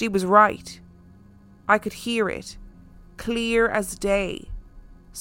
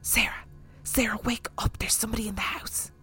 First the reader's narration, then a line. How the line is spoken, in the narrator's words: whispering